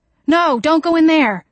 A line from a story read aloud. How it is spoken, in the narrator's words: I cried